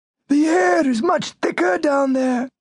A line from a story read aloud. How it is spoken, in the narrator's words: shouted in his ear